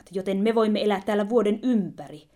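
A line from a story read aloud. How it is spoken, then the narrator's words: Exclaiming together. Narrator (Finnish): he huudahtivat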